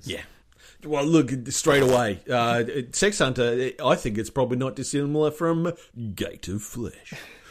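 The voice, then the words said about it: Deep accented voice. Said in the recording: “your accent at that deep with that sentence”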